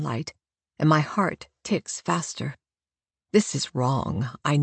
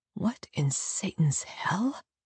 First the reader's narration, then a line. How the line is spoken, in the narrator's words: I mutter